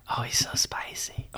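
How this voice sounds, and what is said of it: Whispering. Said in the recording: “I'm whispering... I hear you down in Whisper Town”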